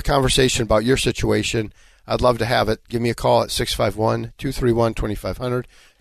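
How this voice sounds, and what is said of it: Raspy, hoarse voice. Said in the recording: “Sorry for the raspy voice. Got a little cold happening. ... sounds kind of sexy ... a little bit of that bluesy voice going”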